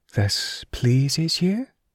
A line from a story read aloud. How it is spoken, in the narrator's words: Ivana purred